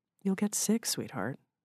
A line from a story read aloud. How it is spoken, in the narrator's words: Sara said to him under her breath